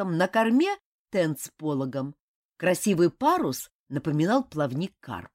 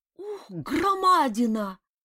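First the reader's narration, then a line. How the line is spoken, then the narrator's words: Exclaiming. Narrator (Russian): воскликнул он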